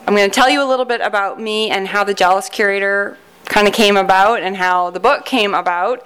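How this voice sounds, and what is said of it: Canadian accent. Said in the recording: “Did that sound really Canadian? About.”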